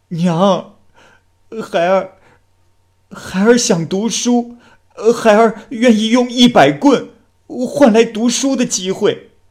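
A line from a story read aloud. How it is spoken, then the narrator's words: Wailing, crying. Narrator (Chinese): 常福大哭着说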